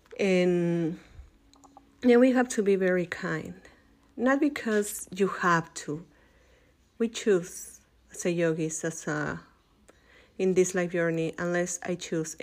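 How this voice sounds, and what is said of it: Strong accent. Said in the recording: “sometimes my accent is very strong”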